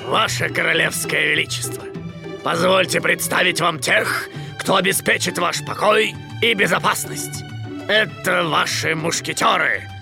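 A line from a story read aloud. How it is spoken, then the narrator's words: Deep voice, feigned respect. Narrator (Russian): Пробасил с наигранным уважением капитан Пит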